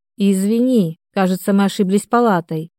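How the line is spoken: Guilty sigh. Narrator (Russian): виновато вздохнула я

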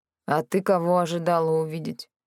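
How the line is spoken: Grumble. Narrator (Russian): Пробурчал

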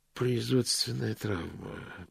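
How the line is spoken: Muttering. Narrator (Russian): пробормотал Мокриц

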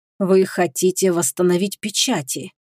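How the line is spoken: Quiet. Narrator (Russian): негромко произнес Майрон

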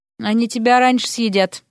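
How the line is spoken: Gloomy interruption. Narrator (Russian): мрачно перебил Эрик

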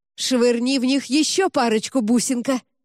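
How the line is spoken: Excited shout. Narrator (Russian): азартно выкрикнула Аманда

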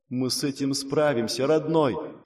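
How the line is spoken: Whisper. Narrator (Russian): шепнула Элифлор

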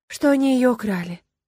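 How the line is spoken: Sighing. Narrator (Russian): вздохнула я

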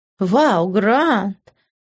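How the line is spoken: Fake delighted exclamation. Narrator (Russian): наигранно восторженно воскликнула я

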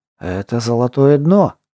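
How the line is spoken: Breathless. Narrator (Russian): выдохнул Горд

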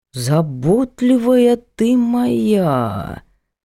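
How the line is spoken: Sarcastic drawl. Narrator (Russian): саркастически протянул Егор Егорович

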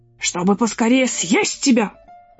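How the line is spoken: Wolf's growl. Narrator (Russian): прорычал волк

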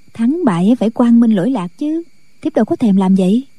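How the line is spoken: Young woman, smiling. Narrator (Vietnamese): Thiếu phụ mỉm cười

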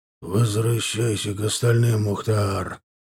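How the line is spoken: Curt, slightly hoarse. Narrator (Russian): хрипловато бросил ему Исувзай

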